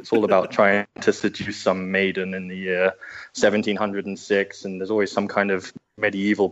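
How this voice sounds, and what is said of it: English accent, posh-sounding. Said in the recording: “my background is English. You can probably get that from the kind of hoity-toity ... Accent.”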